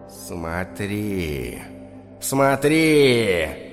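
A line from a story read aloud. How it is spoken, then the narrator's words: Whisper. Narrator (Russian): шептал черный человек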